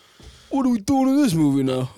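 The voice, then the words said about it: Sylvester Stallone impression. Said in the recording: “Can you give me Sylvester Stallone? ... Rocky. ... I can do his newer one. ... That's my Sylvester. ... That's not bad, actually.”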